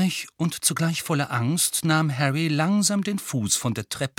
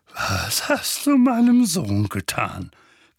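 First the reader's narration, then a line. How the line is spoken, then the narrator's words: Threatening growl. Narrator (German): knurrte er drohend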